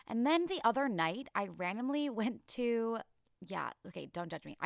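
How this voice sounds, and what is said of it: Tired-sounding voice. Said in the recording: “my voice sounds a little tired, it's because it is ... I am definitely feeling it in my voice”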